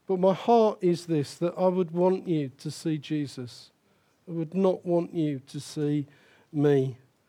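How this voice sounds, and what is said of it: Speaks with a noticeable accent. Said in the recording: “my accent. You know, I'm ever so sorry, I was born with this accent.”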